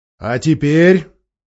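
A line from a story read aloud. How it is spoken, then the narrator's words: Much louder, growling voice. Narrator (Russian): произнес Аслан гораздо громче, и в голосе его слышалось рычание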